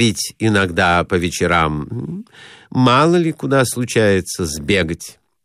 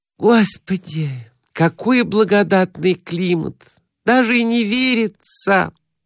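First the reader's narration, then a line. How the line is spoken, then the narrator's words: Sighing. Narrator (Russian): вздохнула Глафира Семеновна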